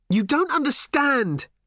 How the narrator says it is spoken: suddenly leapt to her feet, shouting

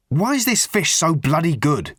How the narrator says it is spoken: he demanded angrily

